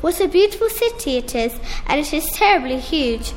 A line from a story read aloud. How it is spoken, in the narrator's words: exclaimed happily